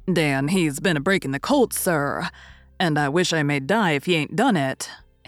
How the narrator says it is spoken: answered Silas, chuckling

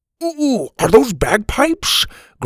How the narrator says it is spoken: Grandpa said excitedly

